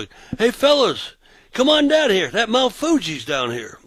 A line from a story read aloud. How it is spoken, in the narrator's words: I yelled down the sidewalk